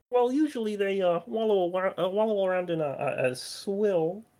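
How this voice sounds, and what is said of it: Kermit the Frog voice. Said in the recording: “doing a Kermit impression”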